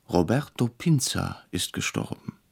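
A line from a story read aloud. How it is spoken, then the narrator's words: Startled, quiet. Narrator (German): erschrocken, sagte leise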